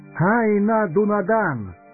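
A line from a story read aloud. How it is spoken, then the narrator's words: Melodious ringing voice. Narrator (Russian): произнес он таким певучим, звонким голосом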